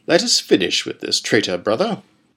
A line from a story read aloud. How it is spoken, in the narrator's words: Pentalus murmured